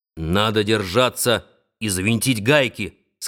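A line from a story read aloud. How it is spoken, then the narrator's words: Plain. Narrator (Russian): сказал Нед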